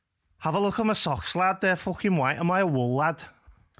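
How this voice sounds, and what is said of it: Poor put-on Scouse accent. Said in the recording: “I have found myself doing the Scouse accent ... not many people can do the Scouse accent, lad. It is a hard accent to do ... Nah, that was quite shit, that, to be fair.”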